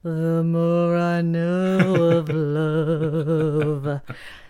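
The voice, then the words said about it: Smoldering imitation of another person's voice. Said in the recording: “That was my impression of Ava Gardner smoldering up the screen.”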